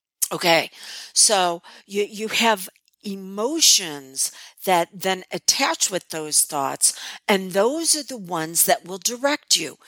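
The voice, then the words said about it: Slightly gravelly, hoarse voice. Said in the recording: “my voice is still a little gravelly from the laryngitis”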